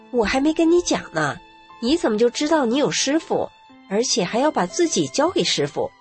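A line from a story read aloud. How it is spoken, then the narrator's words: Plain. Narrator (Chinese): 我说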